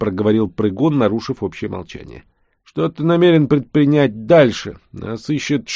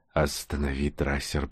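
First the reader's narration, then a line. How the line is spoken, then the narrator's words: Purring. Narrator (Russian): промурлыкал Нкот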